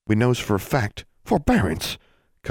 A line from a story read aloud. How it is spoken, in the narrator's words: Constance said sharply